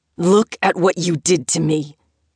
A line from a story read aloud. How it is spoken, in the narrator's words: he spat